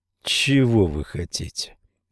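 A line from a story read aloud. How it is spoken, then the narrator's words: Tired question. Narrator (Russian): спросил он устало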